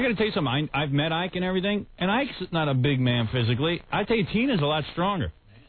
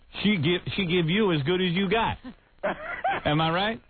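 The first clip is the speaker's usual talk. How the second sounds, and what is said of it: Put-on Black American accent. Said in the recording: “that's my black accent”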